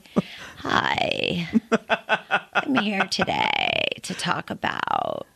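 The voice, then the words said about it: Exaggerated vocal fry. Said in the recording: “podcasts with vocal fry”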